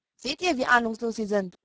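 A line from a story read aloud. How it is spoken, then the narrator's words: Plain. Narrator (German): sagte Sam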